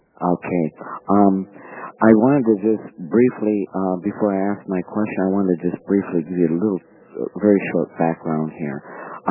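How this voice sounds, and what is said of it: Voice in poor condition. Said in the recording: “Forgive my voice today. It's not the best.”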